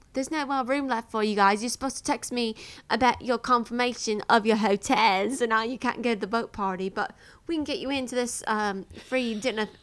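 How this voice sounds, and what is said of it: Imitates another person's accent. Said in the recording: “That accent's so good.”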